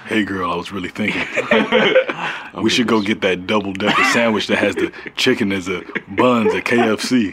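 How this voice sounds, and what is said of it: Deep voice drifting into African accent. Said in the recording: “the deep voice guy ... it almost became your African dad voice”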